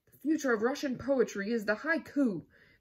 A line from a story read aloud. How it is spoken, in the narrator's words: Mishka shouted in conclusion